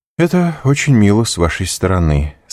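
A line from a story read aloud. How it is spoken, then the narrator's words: Indifferent tone. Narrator (Russian): сказал Монте-Кристо таким же безразличным тоном, как сказал бы любую другую фразу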